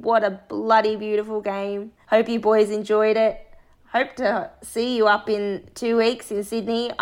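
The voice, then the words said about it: Hoarse, strained voice. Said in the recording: “As you can tell, I've lost my voice from yelling so hard at that game.”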